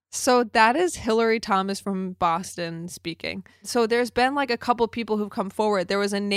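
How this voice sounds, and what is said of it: Usual voice. Nothing is said of it.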